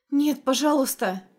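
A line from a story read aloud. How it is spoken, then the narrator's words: Pleading. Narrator (Russian): взмолилась Ханна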